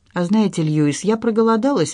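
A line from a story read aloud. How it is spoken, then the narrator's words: Cheerful. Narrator (Russian): весело сказала я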